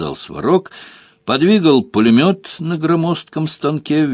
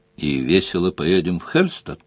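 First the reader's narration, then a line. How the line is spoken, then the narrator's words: Quiet question. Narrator (Russian): тихо спросила Делия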